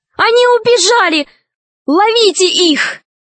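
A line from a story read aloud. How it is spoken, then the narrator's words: Sudden shout. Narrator (Russian): Вдруг русалка закричала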